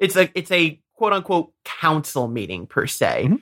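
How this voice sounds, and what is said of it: Usual voice. Nothing is said of it.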